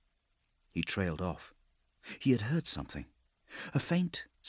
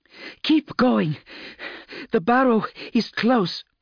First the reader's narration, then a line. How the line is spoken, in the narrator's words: she shouted, fighting to be heard over the storm, her voice harsh with fear and exhaustion